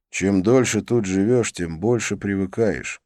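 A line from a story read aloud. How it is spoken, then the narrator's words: Sigh. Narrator (Russian): вздохнул я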